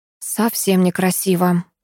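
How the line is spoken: Sigh. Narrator (Russian): вздохнула я

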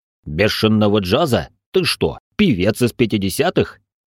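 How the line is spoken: Snort close to ear. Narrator (Russian): фыркнул Али мне в ухо

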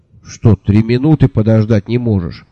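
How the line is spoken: Grumbling. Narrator (Russian): проворчал я

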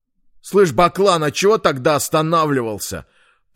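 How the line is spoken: Sharp question. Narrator (Russian): резким тоном спросил сидящий сзади

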